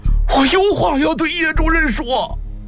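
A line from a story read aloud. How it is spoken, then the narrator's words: Terrified hoarse shout. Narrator (Chinese): 崔文泰吓得腿都软了，声嘶力竭地喊道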